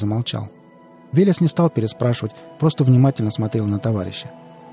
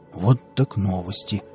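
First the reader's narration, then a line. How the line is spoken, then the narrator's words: Mutter. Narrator (Russian): пробормотал Виллис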